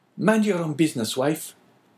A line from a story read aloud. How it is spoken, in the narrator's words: replied Caderousse sharply